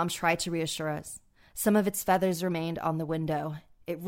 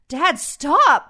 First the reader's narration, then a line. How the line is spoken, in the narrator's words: I pleaded with him